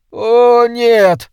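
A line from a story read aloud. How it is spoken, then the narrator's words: Groaning. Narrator (Russian): простонал Кенни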